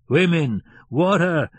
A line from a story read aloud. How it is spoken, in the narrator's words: he roared